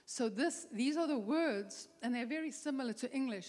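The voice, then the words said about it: Speaker's own accent in English. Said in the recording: “excuse my accent in English and in Spanish”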